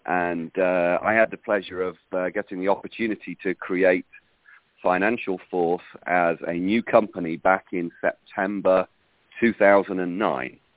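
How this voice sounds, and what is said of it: British accent. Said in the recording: “you can probably tell by the accent that I'm originally from another country. I'm actually from the UK.”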